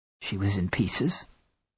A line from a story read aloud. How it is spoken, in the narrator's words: I croaked